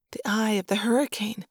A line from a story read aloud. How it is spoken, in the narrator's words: Lauren whispered